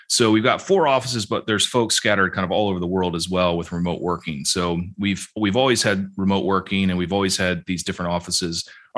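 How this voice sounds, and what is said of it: American English accent. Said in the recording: “I'm an American with an American accent”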